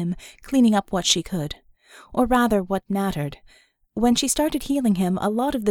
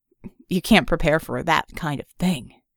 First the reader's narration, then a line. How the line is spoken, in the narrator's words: he scoffed